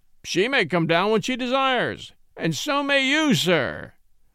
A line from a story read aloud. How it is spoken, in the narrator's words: roared Austin stormily